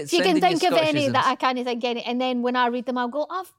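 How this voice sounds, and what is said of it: Scottish accent. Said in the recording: “Does my Scottish accent get a little bit more Scottish when I'm like talking about Scottish stuff? ... Uh, possibly.”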